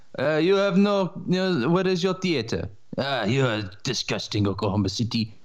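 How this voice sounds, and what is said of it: Mediocre put-on French accent. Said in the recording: “Frenchman in a Hollywood movie. Like, with cigarette, yeah, and using that accent ... That also had a little bit of Borat in it, by the way. I mean, it was French, but there was like a small tinge of Borat. ... My accents are like... you can tell what they are, but they're not very good. ... mediocre accents”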